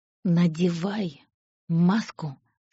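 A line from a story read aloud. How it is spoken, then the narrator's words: Order through gritted teeth. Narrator (Russian): сквозь зубы приказал он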